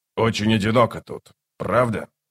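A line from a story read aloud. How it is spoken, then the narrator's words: Snorting. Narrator (Russian): Скрипач хмыкнул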